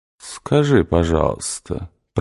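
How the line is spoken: Mocking drawl. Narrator (Russian): протянул он насмешливо

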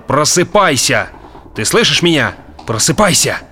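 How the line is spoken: Shouted. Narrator (Russian): плюнув на объяснение, он закричал

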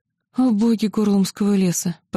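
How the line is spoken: Anguished moan. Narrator (Russian): простонала я, сжимая виски

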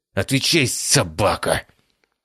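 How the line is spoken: Growled through clenched teeth. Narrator (Russian): Стиснув зубы, прорычал Биркин

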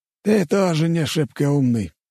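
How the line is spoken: Sighing. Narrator (Russian): вздохнул Мамонов

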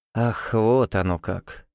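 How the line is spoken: Breathed out. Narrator (Russian): выдохнул граф

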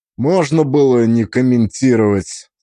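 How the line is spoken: Tired. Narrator (Russian): сказал я устало

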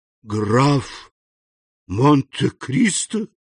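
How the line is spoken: Horrified exclamation. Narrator (Russian): в ужасе воскликнул Данглар

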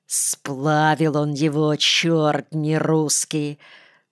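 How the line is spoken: Hateful, through gritted teeth. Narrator (Russian): процедил Паша, глядя на меня с ненавистью

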